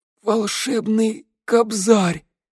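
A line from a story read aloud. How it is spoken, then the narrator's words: Breathed out. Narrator (Russian): выдохнул скрипач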